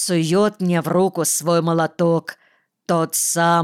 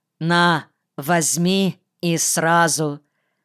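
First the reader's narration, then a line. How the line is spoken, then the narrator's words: Stern. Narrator (Russian): Колька говорит строго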